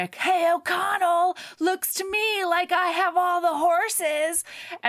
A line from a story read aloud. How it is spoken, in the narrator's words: Benny shouts over to Rick